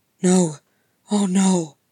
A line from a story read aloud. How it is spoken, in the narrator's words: Gimli breathed, his eyes stricken